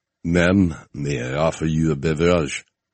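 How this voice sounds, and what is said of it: Thick exaggerated fake French accent. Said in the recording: “the thickest, most put-on French accent I'd ever heard”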